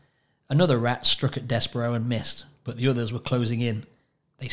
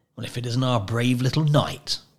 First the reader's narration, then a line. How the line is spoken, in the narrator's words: Botticelli said, sneering